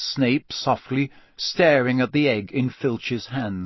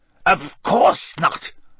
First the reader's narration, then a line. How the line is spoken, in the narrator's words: Snape snapped